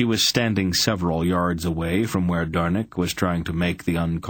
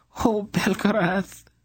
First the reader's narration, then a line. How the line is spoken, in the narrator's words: the princess almost sobbed with relief